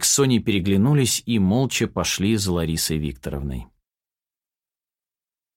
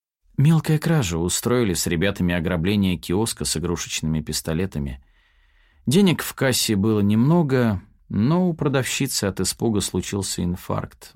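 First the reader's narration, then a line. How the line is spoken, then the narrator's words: Woman sighing. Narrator (Russian): вздохнула женщина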